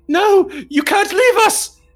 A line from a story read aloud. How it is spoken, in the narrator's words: Thorn shrieks